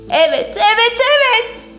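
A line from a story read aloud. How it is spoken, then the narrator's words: Shouted. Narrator (Turkish): diye bağırdı Porsche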